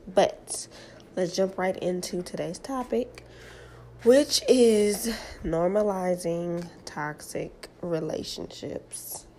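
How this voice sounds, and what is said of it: Slightly raspy voice. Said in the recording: “my voice is a little raspy. I am I do have a cold right now”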